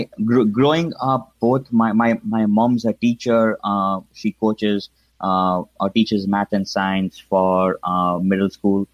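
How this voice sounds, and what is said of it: Indian accent. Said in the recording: “as you can probably tell from my accent, I grew up in India, specifically in Mumbai.”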